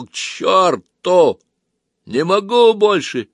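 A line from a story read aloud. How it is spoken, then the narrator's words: Shouted. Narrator (Russian): Сергей таким голосом крикнул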